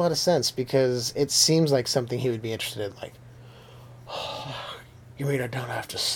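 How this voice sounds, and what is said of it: Usual voice. Nothing is said of it.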